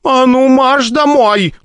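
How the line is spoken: Mother's angry shout. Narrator (Russian): закричала на это ее мать

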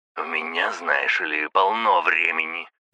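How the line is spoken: Hissing over phone. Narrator (Russian): прошипел в трубку мужик

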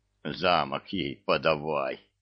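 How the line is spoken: Muttering. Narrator (Russian): бормотал его бессмертие

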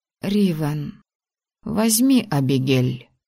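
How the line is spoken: Quiet, firm female demand. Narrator (Russian): тихо, но непреклонно потребовала женщина

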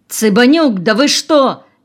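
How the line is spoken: Frightened shout. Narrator (Russian): испуганно закричал Колосов

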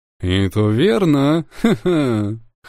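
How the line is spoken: Laughing. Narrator (Russian): хохотнул мужчина

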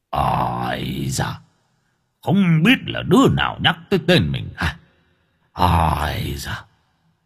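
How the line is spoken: Mutter after sneeze. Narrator (Vietnamese): Diêm La Vương hắt hơi rồi lẩm bẩm

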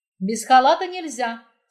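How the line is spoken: Stern nurse. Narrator (Russian): строго сказала сестра

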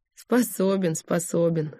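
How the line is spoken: Short laugh. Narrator (Russian): хохотнул Бессонов

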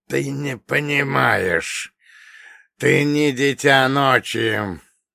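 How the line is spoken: Hoarse wheeze. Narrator (Russian): продолжал хрипеть Каин, тягучая кровь которого продолжала медленно струиться из ран

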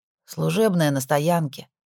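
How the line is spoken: Sighing reply. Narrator (Russian): вздохнул он в ответ

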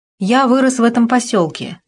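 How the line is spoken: Plain. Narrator (Russian): сказал он

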